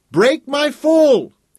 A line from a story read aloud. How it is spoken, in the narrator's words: he yelled again